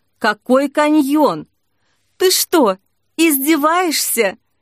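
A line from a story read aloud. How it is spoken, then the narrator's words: Sobbing. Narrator (Russian): Снежка всхлипнула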